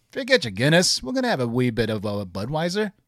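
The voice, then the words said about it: Put-on Irish accent, questioning lilt. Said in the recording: “If you speak Irish, everything sounds like a question. That's my best. I'm sorry.”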